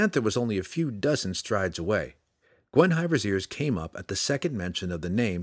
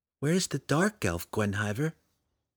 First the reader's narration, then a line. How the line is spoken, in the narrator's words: She asked quietly